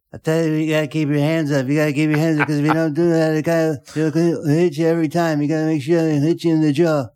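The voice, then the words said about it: Imitates another person's voice. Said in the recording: “Freddie Roach impression”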